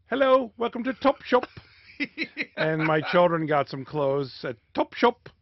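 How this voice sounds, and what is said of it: Put-on British accent. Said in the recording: “Can you do a British accent? ... It's kind of a mix between Dick Van Dyke and Prince Charles you've got going on there.”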